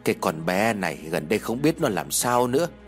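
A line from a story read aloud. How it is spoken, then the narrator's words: Old woman sighing. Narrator (Vietnamese): Bà Nhung liền thở dài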